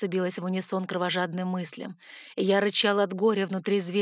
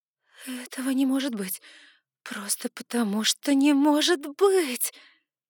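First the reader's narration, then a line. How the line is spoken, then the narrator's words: Moaning. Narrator (Russian): застонала я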